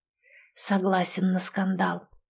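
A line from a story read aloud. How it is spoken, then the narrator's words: Whisper. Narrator (Russian): прошептал он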